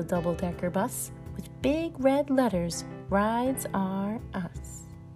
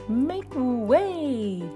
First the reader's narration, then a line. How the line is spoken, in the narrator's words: yelled the limousine